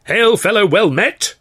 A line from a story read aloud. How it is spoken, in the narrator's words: he boomed